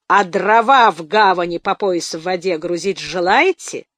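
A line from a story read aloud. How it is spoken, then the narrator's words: Hissing close to ear. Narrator (Russian): Прошипел он почти над его ухом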